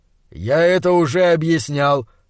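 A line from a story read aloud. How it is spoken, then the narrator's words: Dull, muffled voice. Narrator (Russian): глухо сказал доктор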